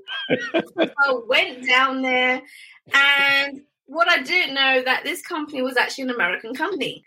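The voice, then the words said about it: British English accent. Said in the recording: “I'm a Brit, they loved my accent”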